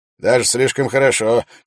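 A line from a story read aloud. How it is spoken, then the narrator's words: Mocking shout. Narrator (Russian): Джилан выкрикнул насмешливо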